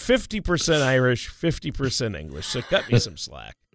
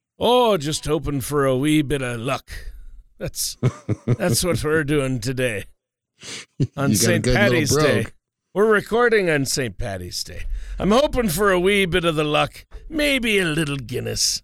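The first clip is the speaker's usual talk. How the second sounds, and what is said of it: Put-on Irish-Scottish accent, imperfect. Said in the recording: “My accent isn't quite. ... I went for somewhere in the middle, which would be what, Scotland? ... Mike what's ... Myers ... Mike Myers Scottish accent there”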